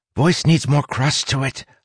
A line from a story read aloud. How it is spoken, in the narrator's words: Hawk whispered